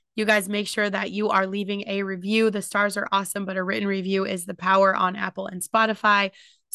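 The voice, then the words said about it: Impaired, rough-sounding voice. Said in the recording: “I hope my voice is better for these podcasts tomorrow ... my voice is fucked up”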